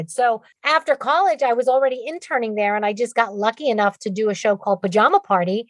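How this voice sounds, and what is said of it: Bronx accent. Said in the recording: “liked my Bronx accent”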